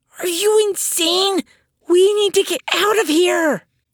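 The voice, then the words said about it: Hissed whisper. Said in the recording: “hissed in a whisper”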